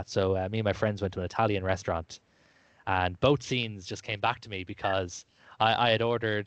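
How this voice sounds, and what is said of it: Lilting Irish accent. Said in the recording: “my lyrical accent, I am from Ireland”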